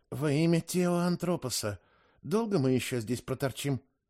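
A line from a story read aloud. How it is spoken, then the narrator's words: Whispered. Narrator (Russian): шепнула мне Аге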